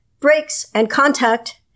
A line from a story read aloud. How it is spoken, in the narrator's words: his teammate called out